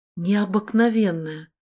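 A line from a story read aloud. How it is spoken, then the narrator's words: Breathed exclamation. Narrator (Russian): Выдохнула я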